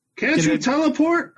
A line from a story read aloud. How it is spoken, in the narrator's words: I yell down from the hill